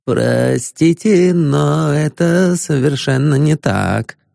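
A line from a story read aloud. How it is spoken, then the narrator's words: Plain. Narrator (Russian): ответил труп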